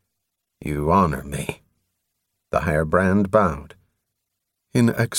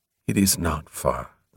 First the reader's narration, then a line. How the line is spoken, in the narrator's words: the higher brand said softly